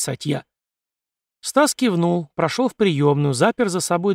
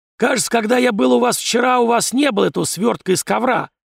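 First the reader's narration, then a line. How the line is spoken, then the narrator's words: Hoarse voice. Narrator (Russian): хрипло произнес Зимин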